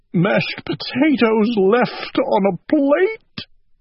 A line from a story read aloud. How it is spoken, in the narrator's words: he cried